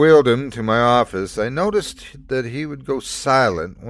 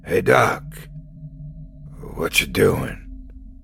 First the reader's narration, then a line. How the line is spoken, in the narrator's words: His voice was hoarse as he croaked out each word